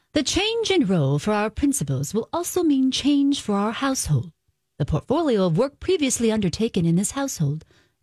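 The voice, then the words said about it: Unconvincing attempted British accent. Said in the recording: “Can I tell you the rest of this in a British accent? ... It doesn't sound British, I'll tell you that”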